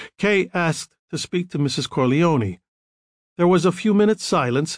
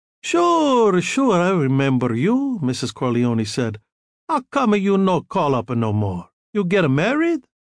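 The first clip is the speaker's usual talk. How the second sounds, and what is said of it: Heavily accented voice. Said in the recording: “the heavily accented voice”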